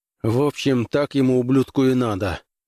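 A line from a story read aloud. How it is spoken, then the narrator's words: Gloomy mutter. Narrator (Russian): мрачно буркнул Граймс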